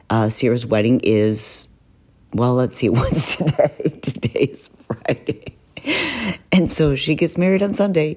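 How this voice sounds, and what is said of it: Whispery, hoarse voice. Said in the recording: “in this whispery hoarse voice”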